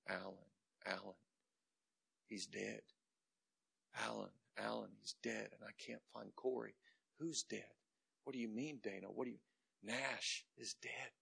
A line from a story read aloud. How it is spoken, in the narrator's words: She would be hysterically screaming